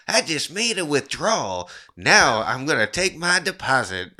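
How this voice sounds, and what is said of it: Nasal Nic Cage impression. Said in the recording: “our nasal Nic Cage”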